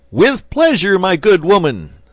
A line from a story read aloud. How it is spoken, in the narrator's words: said the archbishop, stooping to shout in her ear